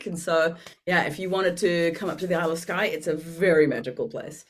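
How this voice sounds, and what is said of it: English accent with Dutch-like tinge. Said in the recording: “you almost sound like you've got a Dutch accent, but you're English”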